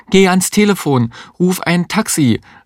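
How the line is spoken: Calling out. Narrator (German): rief die Existenzialistin

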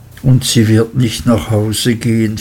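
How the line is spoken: Sad interruption. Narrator (German): fiel er ein und schüttelte traurig den Kopf

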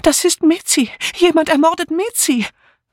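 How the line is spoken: Sobbing, calling out. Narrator (German): Dora Banner, die still vor sich hin schluchzte, rief nun

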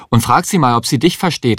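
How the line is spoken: Calling out. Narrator (German): rief Herr Kuppisch

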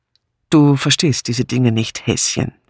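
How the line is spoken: Plain. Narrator (German): sagte er schließlich

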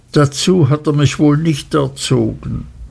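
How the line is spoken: Mother sobbing. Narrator (German): schluchzte meine Mutter

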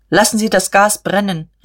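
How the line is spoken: Calling out. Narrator (German): rief er dem Maschinenmeister zu

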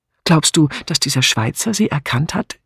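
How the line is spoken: Plain. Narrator (German): fragte Bunch

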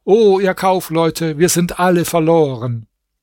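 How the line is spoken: Loud cry. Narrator (German): Dann rief er laut

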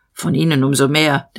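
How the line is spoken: Growled. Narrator (German): der Major knurrte

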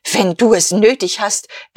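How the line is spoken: Hissed reply. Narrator (German): erwiderte Guste und zischte

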